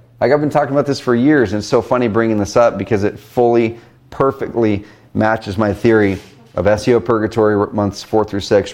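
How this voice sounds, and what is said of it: Strained, nearly lost voice. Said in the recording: “so my voice is almost gone.”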